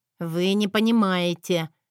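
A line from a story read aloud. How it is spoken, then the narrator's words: Nearly through gritted teeth. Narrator (Russian): едва не процедила Эрика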